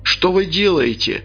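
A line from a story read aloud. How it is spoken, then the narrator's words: Shouting. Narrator (Russian): кричал я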